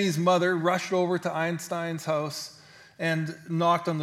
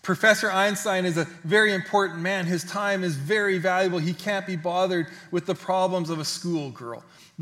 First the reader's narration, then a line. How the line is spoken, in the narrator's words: the mother exclaimed